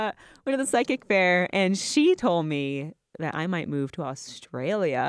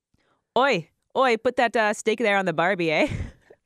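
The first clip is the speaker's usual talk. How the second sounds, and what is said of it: Bad put-on Australian accent. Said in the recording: “best Australian accent ... really bad at that Australian accent ... way more of a Canadian accent than anything else”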